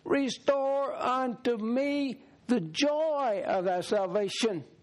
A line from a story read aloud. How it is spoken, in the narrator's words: he cried out to God